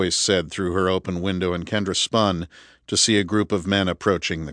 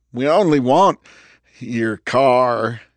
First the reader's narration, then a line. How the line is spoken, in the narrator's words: he sneered at her, his face wild, twitchy